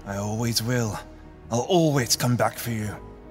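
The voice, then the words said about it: Attempted Scottish accent. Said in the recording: “Are you trying to do a Scottish accent right now?”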